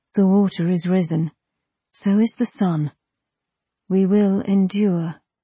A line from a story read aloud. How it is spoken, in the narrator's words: the body said quietly